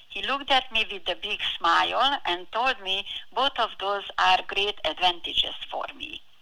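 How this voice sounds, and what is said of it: Heavy foreign accent. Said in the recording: “I have a very heavy accent.”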